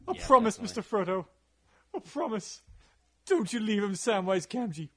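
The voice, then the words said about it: Impression of Sam from Lord of the Rings. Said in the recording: “It's a very solid impersonation.”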